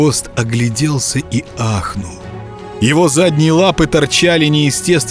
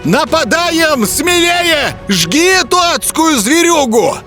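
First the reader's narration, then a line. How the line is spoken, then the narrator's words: Village elder yelling. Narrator (Russian): завопил староста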